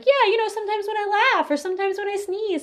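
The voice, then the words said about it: Imitates another person's voice. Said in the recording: “And that's my imitation voice.”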